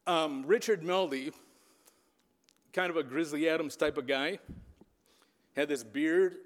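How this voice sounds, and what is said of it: Emotional, voice holding back tears. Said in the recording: “I'm getting a little emotional here, but I'm going to fight through this.”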